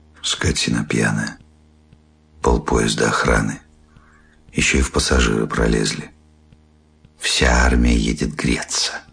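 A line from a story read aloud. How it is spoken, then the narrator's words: Quiet. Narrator (Russian): Жена тихо сказала вслед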